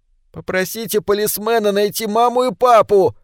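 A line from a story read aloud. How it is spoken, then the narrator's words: Shout from behind. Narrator (Russian): крикнула Келли у него за спиной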